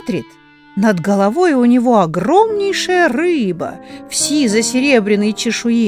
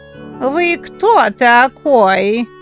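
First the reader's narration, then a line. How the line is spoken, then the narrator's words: Squeaky clarinet-like voice. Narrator (Russian): точно кларнет запищал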